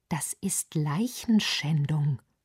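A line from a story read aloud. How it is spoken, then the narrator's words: Overwhelmed muttering. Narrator (German): murmelte Lorenz überfordert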